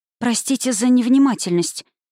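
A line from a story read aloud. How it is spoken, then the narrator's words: Wheezing. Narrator (Russian): просипела я на всеобщем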